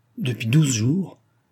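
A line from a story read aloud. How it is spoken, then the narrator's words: Impatient exclamation. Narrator (French): s'écria sans patience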